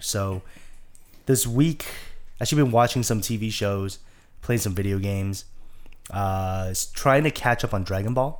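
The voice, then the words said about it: Deeper than normal, sick voice. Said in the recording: “I can hear it. ... my voice is a little deeper than normal. ... A little sensual.”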